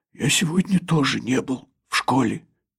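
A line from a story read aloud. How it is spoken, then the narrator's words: Hoarse rasp. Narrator (Russian): Герман прохрипел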